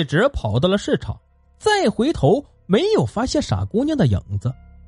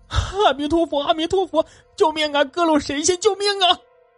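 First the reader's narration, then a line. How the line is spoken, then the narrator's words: Panicked crying shout. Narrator (Chinese): 他也急得来抱佛脚，哭喊道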